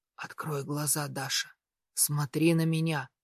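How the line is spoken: Feverish whisper. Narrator (Russian): Горячечный шепот

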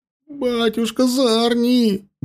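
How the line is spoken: Howled. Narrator (Russian): бледнее взвыл Варак

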